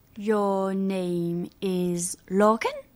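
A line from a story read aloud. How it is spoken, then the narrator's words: Slow question. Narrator (French): demanda-t-elle lentement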